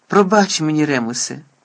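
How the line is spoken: Sighing. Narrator (Ukrainian): зітхнув Блек

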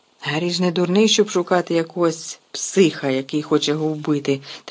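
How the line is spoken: Trembling voice. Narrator (Ukrainian): тремтячим голосом сказав Рон

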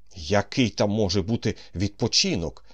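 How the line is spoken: Shout. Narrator (Ukrainian): викрикнув Полихаєв

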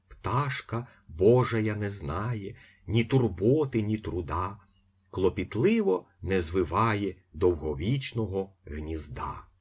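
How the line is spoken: Priest's smiling whisper. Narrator (Ukrainian): Панотець світосяйно усміхаючись, прошепотів

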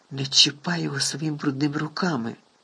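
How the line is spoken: Barely audible rasp. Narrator (Ukrainian): Ледь чутно прохрипів Гаррі

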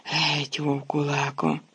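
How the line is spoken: Moaned. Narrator (Ukrainian): Рон простогнав

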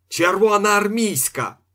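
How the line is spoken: Shout. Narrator (Ukrainian): закричав дядьо

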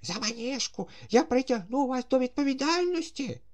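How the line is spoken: Furious shout. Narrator (Ukrainian): люто закричав Паніковський

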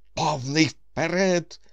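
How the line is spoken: Desperate shout. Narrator (Ukrainian): Командор у відчуї крикнув

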